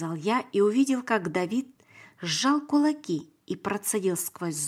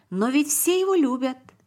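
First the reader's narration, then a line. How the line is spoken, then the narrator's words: Exclaimed. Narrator (Russian): воскликнул Давид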